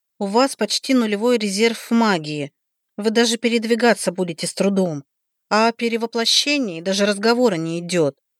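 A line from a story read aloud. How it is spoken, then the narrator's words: Weary. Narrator (Russian): устало проговорила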